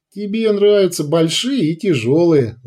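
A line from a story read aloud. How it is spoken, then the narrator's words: Ringing laughter. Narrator (Russian): звонко расхохоталась Любава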